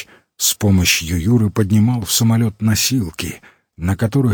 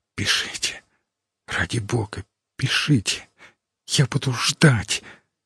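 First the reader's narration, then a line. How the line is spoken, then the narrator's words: Girl's whisper. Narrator (Russian): шепот девушки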